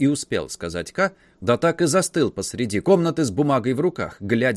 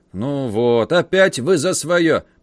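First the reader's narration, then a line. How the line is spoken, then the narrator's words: Guard muttering. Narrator (Russian): пробурчал стражник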